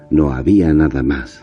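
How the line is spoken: Sighed. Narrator (Spanish): suspiró

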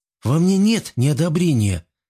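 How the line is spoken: Weary sigh. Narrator (Russian): вздохнул устало Жан

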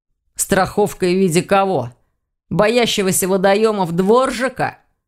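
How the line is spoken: Grumbling. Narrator (Russian): проворчал Ваня, у которого окончательно сдох эхолот

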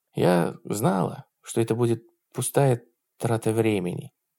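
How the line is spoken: Slightly trembling female voice. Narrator (Russian): сказала она слегка дрожащим голосом

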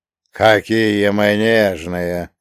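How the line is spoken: Scornful snort. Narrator (Russian): фыркнул провожатый

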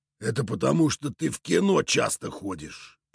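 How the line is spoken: Hissed. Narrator (Russian): прошипел коряга

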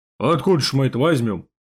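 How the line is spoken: Snorted, young communist. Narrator (Russian): фыркнул комсомолец

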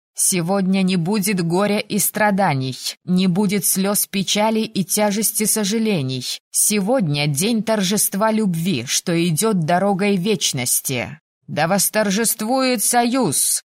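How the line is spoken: Shouted in unison. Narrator (Russian): В унисон крикнули Риван и Пенелопа

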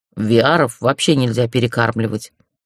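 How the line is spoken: Snorting. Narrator (Russian): хмыкнул Сар

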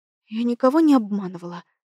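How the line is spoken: Muttered whisper. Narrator (Russian): прошептала я себе под нос

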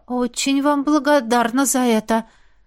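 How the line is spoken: Strained, slightly hysterical. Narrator (Russian): немного истерично выдавила я из себя

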